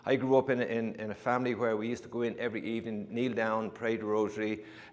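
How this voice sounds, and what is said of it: Irish accent. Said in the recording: “as hear from my accent, I, am from uh, a different country than here ... People say I have an accent, but when you go to Ireland, I don't think I have much of an accent because it blends into everybody else's accent”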